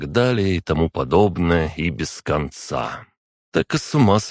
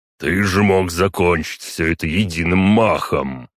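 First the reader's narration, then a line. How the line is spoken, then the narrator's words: Deep bass voice. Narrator (Russian): пробасил он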